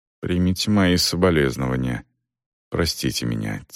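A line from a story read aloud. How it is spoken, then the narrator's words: Quiet. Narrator (Russian): тихо проговорил Селдон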